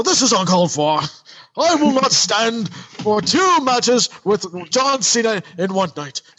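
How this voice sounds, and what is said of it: Put-on British accent, outraged politician. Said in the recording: “It just sounds terrible. ... a new character of outraged British politician ... I can't do the accent.”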